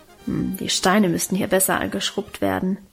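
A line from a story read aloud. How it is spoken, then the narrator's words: Muttered to herself. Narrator (German): brummte sie vor sich hin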